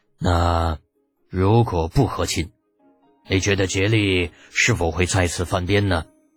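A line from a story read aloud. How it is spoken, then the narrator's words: Deep-voiced pressing question. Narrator (Chinese): 李二 沉声追问道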